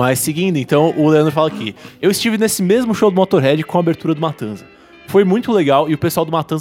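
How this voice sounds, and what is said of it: Usual voice. Nothing is said of it.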